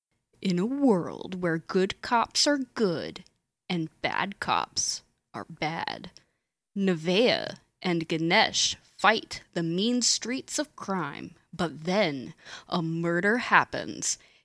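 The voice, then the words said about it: Movie trailer announcer voice. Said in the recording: “my movie phone voice”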